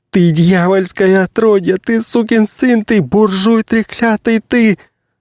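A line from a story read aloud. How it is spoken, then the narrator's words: Incoherent screaming and sobbing. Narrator (Russian): проклятия перешли в сплошной неразборчивый крик и рыдание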